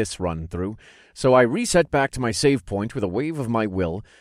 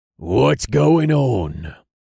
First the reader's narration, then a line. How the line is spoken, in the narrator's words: Jax growled